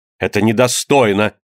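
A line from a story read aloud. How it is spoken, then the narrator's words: Exclaimed. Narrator (Russian): воскликнул патриот-географ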